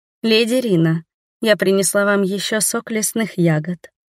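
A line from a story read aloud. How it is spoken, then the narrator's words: Timid girl. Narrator (Russian): робко сказала девушка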